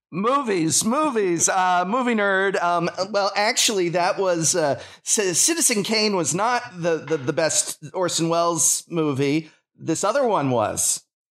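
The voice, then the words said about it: Exaggerated self-impression, nerdy voice. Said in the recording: “your best ... impression? ... It's uncanny.”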